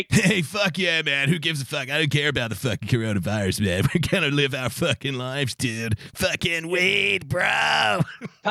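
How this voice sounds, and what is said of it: Put-on California stoner accent. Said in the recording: “my California accent, I just try to think of Steve-O from Jackass”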